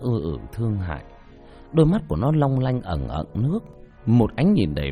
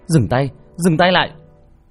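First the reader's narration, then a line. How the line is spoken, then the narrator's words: Loud shout. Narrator (Vietnamese): tôi vừa hét lớn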